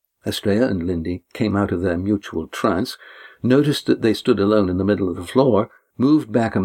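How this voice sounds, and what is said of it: Usual voice. Nothing is said of it.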